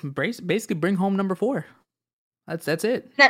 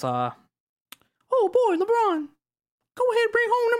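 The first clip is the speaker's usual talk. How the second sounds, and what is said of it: Mickey Mouse cartoon voice. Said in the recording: “you gotta do this in your Mickey Mouse voice”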